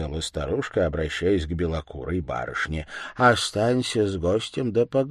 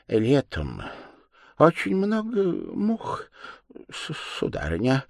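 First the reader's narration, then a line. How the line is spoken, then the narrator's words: Half-trembling voice. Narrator (Russian): произнес он полудрожащим голосом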